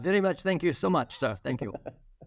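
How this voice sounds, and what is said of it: Put-on Chinese accent. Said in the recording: “Do a Chinese accent. ... a great accent.”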